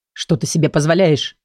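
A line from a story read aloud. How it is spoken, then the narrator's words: Growled. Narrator (Russian): прорычал Лиран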